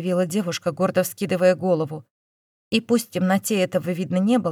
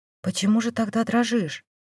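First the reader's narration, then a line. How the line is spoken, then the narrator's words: Whispered question. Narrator (Russian): поинтересовался шепотом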